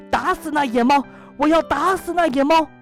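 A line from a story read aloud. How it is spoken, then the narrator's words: Clamorous shouting. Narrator (Chinese): 口里嚷嚷道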